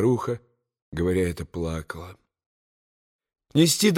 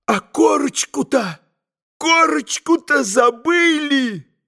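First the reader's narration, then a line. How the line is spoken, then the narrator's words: Sudden terrified exclamation. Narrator (Russian): вдруг воскликнул в страшном испуге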